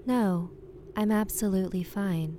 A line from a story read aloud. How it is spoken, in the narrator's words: said the woman very calmly